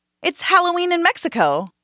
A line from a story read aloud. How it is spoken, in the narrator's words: another shouted